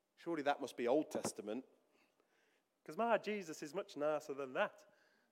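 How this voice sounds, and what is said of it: Put-on Yorkshire accent. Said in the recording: “the Yorkshire accent”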